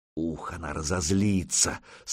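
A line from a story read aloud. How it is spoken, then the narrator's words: Excited whisper. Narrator (Russian): с азартом прошептал Свиди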